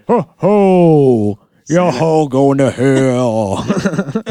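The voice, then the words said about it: Game-show host impression sounding like Santa. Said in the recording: “You like my Steve Harvey impression? ... Sound like Santa.”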